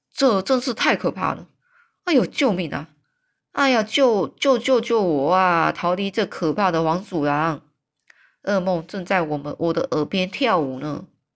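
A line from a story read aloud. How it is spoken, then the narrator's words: Giant, anguished and annoyed. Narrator (Chinese): 这个巨人语气充满了苦闷跟恼怒啊，他就说了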